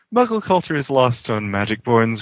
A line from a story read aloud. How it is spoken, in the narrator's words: Remus said with a sigh